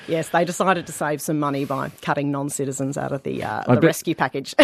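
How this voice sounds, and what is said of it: Australian accent. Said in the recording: “I just noticed your accent there ... I bet they learned some wonderful Australian phrases that day”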